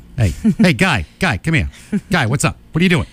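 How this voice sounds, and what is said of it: Put-on Boston accent. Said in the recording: “I used to have a mean Boston accent”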